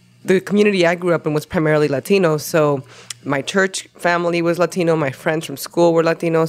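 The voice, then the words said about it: Latino-accented English. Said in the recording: “I like your accent ... It's just definitely the Latino heritage sound.”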